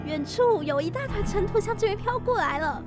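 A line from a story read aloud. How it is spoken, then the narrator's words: Shouting. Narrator (Chinese): 安娜喊道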